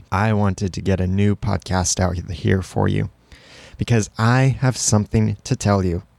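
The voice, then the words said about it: Slightly scratchy voice. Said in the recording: “my throat is a little scratchy”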